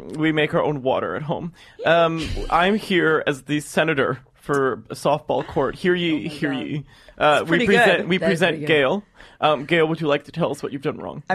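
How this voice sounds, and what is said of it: Put-on stereotyped character voice. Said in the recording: “This is my lesbian impression.”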